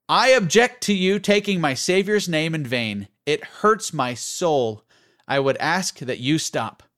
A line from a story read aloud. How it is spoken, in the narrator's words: the young man loudly declared